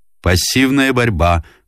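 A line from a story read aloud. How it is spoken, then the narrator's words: Shouted out. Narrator (Russian): выкрикнул информатор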